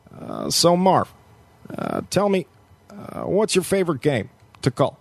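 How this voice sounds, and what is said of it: Barack Obama impression. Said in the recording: “pretty good Barack Obama impression”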